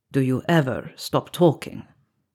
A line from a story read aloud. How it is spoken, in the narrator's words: Antonin asked, his voice low